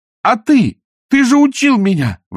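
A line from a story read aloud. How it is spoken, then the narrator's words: Desperate shout. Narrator (Russian): в отчаянии закричала она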